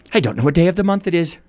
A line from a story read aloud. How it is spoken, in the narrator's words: said Scrooge